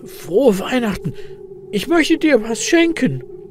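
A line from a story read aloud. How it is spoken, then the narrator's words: Excited croak. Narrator (German): krächzt Elias mit aufgeregter Stimme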